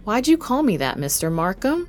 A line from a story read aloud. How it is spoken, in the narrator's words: Jimmy asked